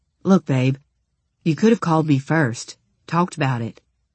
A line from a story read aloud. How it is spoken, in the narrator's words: he said in a conciliatory tone